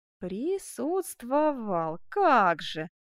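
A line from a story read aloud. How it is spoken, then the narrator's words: Slow, syllabic, relishing. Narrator (Russian): отвечал Мармань, произнося слова по слогам и медленно, с наслаждением выговаривая их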